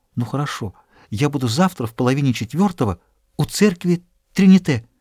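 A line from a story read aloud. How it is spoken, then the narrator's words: Quick confused whisper. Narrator (Russian): окончательно растерявшись, быстро прошептала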